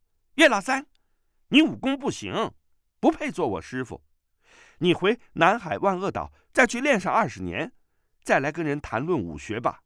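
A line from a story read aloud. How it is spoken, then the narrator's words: Eager interrupting. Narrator (Chinese): 段誉已抢着说道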